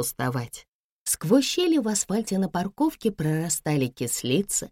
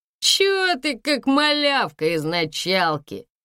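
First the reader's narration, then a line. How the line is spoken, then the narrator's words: Mocking laughter, young men. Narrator (Russian): Один из парней засмеялся, на его смех накладывался смех второго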